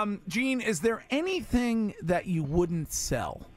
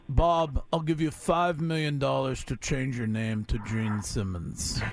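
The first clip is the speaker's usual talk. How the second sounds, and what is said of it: Imitates another person's voice. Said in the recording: “the impression is not so good ... my impression of you is better than you doing you”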